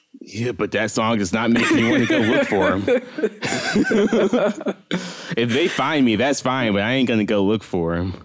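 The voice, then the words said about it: Southern American accent. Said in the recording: “That was very Southern of you. When you get mad, your Southern accent comes out.”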